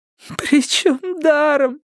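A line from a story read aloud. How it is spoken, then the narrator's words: Sobbing. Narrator (Russian): сказала Стефани, рыдая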